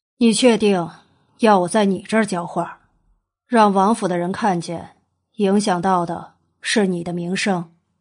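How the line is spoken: Sighing explanation. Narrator (Chinese): 他叹气解释

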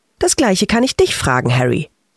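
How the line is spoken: Girl's curt answer. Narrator (German): antwortete das Mädchen schroff

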